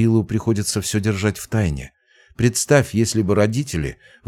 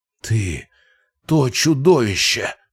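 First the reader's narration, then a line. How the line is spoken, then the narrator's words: Furious male rasp. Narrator (Russian): прохрипел он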